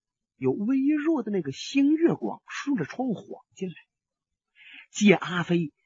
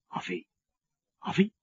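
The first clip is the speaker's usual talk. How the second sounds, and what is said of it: Quiet, hushed calling. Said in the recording (Chinese): “小声的叫了两句”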